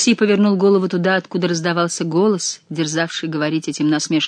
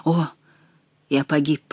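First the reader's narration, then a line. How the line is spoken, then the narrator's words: Whispering. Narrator (Russian): прошептал он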